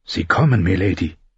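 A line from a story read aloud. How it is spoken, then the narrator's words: Whispered. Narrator (German): flüsterte Herr Mollen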